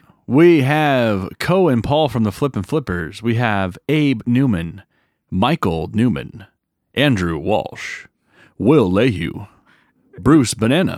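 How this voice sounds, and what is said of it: Announcer-style radio voice. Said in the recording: “Is this your radio voice? ... I like this voice. Keep it.”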